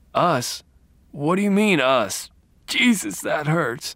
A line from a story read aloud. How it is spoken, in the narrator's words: he whimpered